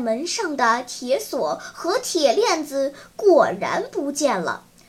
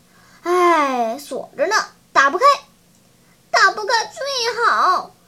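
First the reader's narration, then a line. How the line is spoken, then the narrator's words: Sighing. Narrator (Chinese): 他叹了一口气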